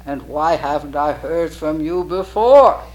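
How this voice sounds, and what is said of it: Booming, thundering voice. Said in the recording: “in a thundering voice”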